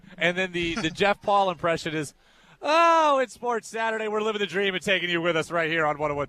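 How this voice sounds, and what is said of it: Usual voice. Nothing is said of it.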